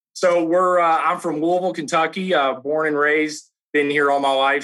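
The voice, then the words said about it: Southern Kentucky accent. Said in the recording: “You have a little bit of an accent going ... a little Southern Kentucky accent”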